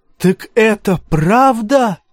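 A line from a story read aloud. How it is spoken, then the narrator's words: Shouting freedwoman. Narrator (Russian): закричала вольноотпущенница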